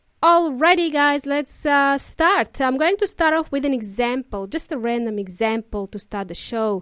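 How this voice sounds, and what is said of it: Usual voice. Nothing is said of it.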